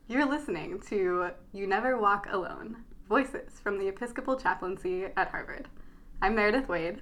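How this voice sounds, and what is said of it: Radio announcer voice. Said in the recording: “radio voice. ... Radio voice”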